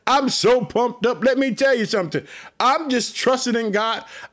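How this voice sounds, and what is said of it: Excited, energetic preaching voice. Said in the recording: “I'm so pumped up. You can hear it in my voice.”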